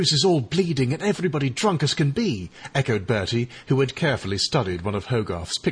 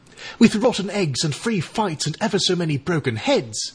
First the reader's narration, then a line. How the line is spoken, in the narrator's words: exclaimed Eric